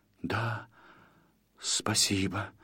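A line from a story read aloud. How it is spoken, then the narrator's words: Hesitant mutter. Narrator (Russian): неуверенно пробормотал Гарри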